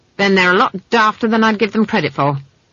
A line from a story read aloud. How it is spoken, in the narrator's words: she snapped